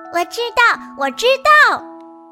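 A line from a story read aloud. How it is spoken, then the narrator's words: Loud. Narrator (Chinese): 它都会大声地说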